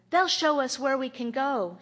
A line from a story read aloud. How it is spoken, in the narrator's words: another shouted